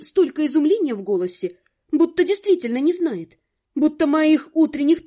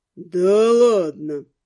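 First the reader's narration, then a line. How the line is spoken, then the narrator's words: Drawling ghost. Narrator (Russian): протянул призрак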